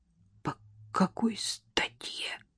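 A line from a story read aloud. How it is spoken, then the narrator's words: Barely audible breath. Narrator (Russian): едва слышно выдохнул Котов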